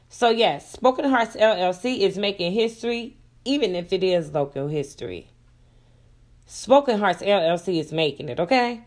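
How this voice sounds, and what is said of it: Slightly raspy voice. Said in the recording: “I'm sorry if I sound a little bit raspy. I am battling a cold”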